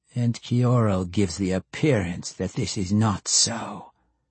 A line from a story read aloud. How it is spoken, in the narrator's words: Matron Banri added in a nasty tone